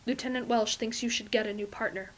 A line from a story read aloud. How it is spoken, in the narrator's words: Fraser says quietly